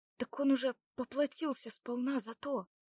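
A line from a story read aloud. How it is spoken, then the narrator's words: Quiet. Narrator (Russian): тихо сказала Лада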